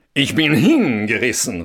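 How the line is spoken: Exclaiming. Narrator (German): rief er

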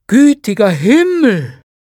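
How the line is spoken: Exclamation. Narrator (German): rief Scrooge

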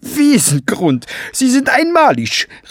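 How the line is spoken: Calling out. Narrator (German): rief

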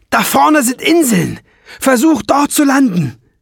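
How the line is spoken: Roaring shout. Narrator (German): brüllte Ben

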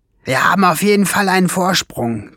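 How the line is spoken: Hiss. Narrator (German): zischte Schwefelfell

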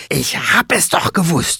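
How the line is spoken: Hissing. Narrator (German): fauchte sie

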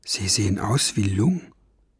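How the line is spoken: Whisper. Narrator (German): flüsterte Ben

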